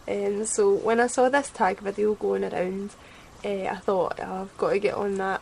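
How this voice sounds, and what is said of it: Scottish accent. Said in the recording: “my lovely Scottish accent”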